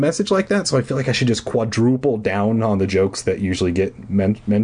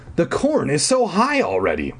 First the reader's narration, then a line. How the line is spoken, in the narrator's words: I exclaimed